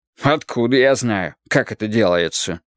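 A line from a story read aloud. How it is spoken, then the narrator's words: Plain. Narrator (Russian): сказал он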